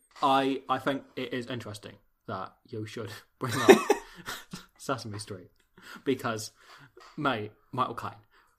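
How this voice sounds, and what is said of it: Not very good Michael Caine impression. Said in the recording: “I that isn't a very good Michael Caine. I can do a better Michael Caine.”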